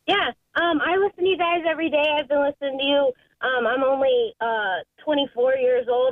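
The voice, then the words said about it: Cute, childlike cartoon-character voice. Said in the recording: “You sound adorable. You kind of sound like Lisa Simpson. You should be you should be the voice of like characters. ... I can kind of hear like a character.”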